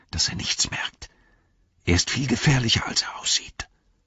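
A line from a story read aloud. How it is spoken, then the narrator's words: Whispering. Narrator (German): flüsterte Frodo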